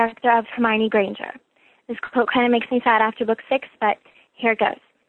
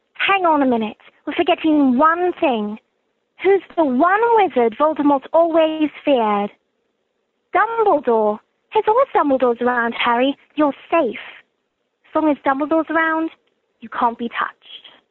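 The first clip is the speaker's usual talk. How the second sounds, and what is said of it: British accent, Hermione Granger. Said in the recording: “anyone who can do a British accent ... quite a Brit ... That was very good ... She sounds word for word from the movie.”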